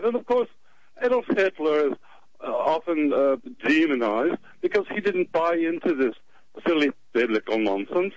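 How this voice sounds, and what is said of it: British accent. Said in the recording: “you have a different accent ... Originally from the British Isles”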